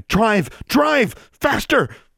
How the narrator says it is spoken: she just kept shouting

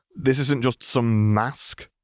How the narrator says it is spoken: snorted

